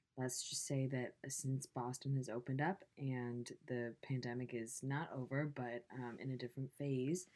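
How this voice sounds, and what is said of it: Hoarse, strained lost voice. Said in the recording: “As you can tell, I lost my voice. ... going back to my normal life has taken a toll on my voice. ... you guys get this voice today”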